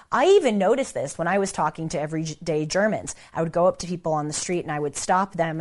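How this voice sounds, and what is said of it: American Valley girl accent. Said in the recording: “my Valley girl, American, dumb sounding accent”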